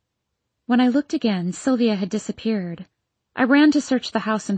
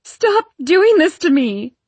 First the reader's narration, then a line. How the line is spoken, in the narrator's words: I yelled